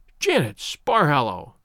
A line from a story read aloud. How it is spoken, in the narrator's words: she cried